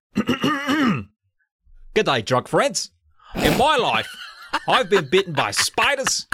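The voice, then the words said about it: Put-on Australian accent. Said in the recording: “I'm going to do my best Australian accent ... I know it's going to be bad ... It's got to hit that A harder ... That was a little more Austin Powers than I meant for it to be”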